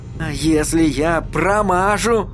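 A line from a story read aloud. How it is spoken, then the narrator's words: Furious hiss. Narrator (Russian): взбешенно прошипел Эдди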